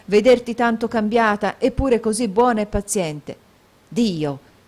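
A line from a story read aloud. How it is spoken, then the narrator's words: Exclamation with sudden tone change. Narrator (Italian): esclamò Nicola stringendo il pugno e a un tratto mutando di tono e di modi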